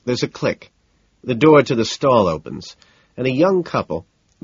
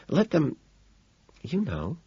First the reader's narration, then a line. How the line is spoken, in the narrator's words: Evelyn whispers behind me